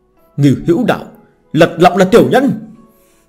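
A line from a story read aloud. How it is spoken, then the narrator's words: Shouted. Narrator (Vietnamese): la lên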